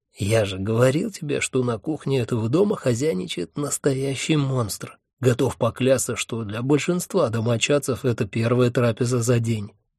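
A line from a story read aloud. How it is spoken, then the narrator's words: Snide whisper. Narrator (Russian): ехидно шепнул мне Хехельф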